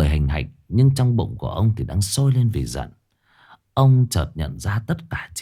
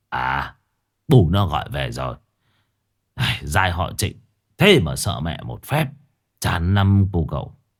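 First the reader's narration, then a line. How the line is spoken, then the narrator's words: Smiling. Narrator (Vietnamese): ông chỉ mỉm cười rồi bảo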